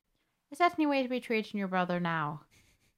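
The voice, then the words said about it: Put-on Irish accent. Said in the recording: “You've got to get into the Irish accent... You're getting there”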